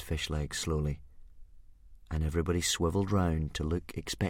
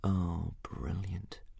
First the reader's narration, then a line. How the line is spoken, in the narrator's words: muttered Hiccup under his breath